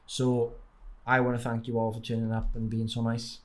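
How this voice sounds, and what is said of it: Welsh accent. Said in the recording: “you've got the Welsh accent here, but when you see me in real life, it's probably even stronger”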